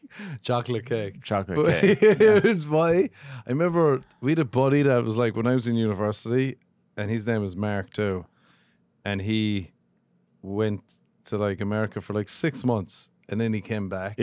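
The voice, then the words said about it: Deep, mumbling regional voice. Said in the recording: “my voice is here. Like, where I'm from ... You do have a deep voice ... we also mumble”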